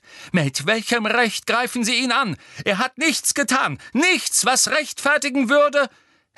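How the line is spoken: Several voices screaming. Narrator (German): schrien auf

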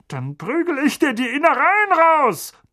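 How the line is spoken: Blustering threat. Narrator (German): polterte Onkel Vernon

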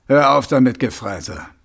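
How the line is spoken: Grumbling. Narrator (German): brummte Mumm

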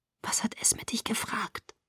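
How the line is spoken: Whispered. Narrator (German): flüsterte ich

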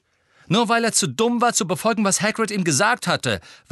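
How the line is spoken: Angry interjection. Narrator (German): warf Harry zornig ein

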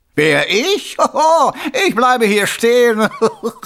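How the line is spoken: Mocking laughter. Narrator (German): das verdammte Lachen, das sich dem verdammten Grinsen hinzugesellte

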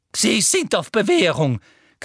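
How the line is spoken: Shrieking. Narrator (German): kreischte Professor Umbridge

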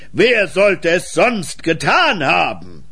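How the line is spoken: Mayor's thundering shout. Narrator (German): rief der Bürgermeister wieder donnernd

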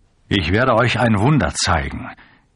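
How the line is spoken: Called out. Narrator (German): rief ihnen zu

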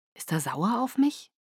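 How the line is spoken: Quiet question. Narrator (German): fragte leise

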